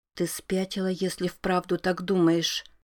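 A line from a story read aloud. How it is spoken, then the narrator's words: Stunned whisper. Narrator (Russian): ошарашенно прошептала Рози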